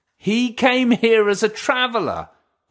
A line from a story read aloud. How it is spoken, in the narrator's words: they shouted